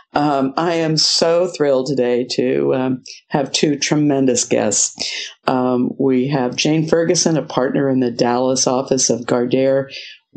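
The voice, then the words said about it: Voice roughened by flu. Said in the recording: “apologize for my voice ... I got slapped by that northeastern flu bug ... I sound a little bit more like I think Betty Davis today than I normally do”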